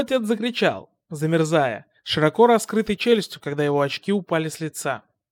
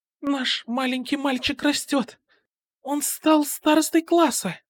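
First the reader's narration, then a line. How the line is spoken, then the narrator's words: Quiet mother's reply. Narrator (Russian): тихо ответила его мать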